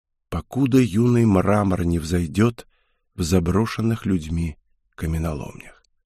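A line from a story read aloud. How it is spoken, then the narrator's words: Barely audible. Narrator (Russian): едва слышно произнес Герард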